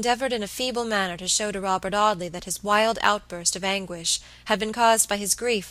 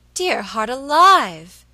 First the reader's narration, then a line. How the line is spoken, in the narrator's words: exclaimed Mrs